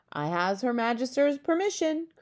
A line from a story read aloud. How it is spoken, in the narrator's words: cried the BFG